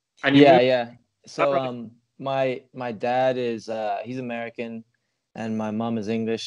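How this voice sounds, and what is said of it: Slight American accent. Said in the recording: “I hint a bit of an American accent there”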